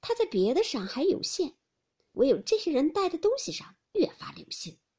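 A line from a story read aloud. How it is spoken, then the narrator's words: Sneering. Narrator (Chinese): 林黛玉冷笑道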